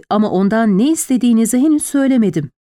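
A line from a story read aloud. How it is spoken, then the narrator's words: Plain. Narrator (Turkish): dedi Lord Robert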